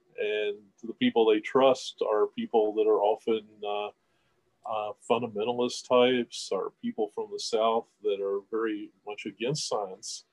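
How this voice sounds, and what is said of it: Southern American accent, Kentucky. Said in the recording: “my Southern accent and the fact that I'm from here in Kentucky”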